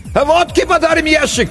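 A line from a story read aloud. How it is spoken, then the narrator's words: Distant shout. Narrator (Russian): крикнули оттуда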